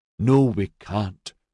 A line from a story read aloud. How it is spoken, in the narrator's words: Maxon said through gritted teeth